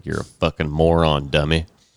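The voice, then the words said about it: Put-on backcountry accent. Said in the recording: “weird accent ... A backcountry accent.”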